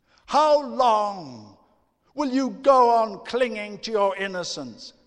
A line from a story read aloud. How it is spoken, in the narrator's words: she shouted